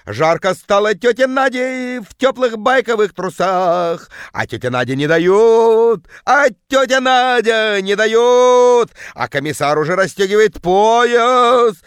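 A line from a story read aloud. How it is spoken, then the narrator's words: Bellowing in deep bass. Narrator (Russian): орала тетка жутким басом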